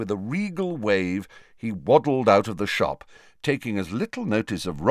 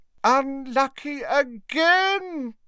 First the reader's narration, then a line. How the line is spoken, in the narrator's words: cried Slughorn dramatically